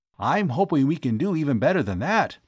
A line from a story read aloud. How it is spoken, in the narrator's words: Tom replied